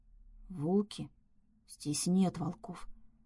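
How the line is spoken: Trembling panicked whisper. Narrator (Russian): Дрожащим шепотом ответила, волна паники

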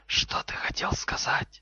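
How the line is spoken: Hissed reply. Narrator (Russian): Гарри прошипел в ответ

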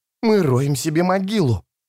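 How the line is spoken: Hissed. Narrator (Russian): прошипел Таламандес

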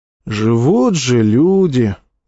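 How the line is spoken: Sighing. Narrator (Russian): вздохнул рядовой Аврелий

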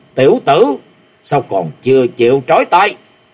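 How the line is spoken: Loud roar. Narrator (Vietnamese): tiếng gầm lớn

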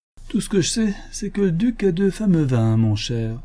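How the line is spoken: Drunken voice. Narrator (French): dit l'honorable George d'une voix avinée

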